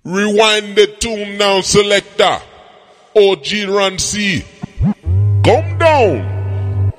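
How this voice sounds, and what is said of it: Put-on Jamaican accent. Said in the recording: “I got to speak the Jamaican accent, man. I do it very well. I fake it very well.”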